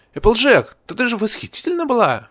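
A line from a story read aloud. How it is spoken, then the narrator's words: Exclaimed. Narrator (Russian): воскликнула Эпплблум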